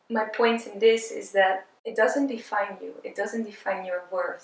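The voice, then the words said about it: Emotional, voice close to tears. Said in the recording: “I'm starting to get emotional now”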